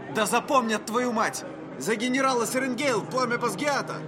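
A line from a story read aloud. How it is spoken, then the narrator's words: Shouting. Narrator (Russian): крикнул один из третьекурсников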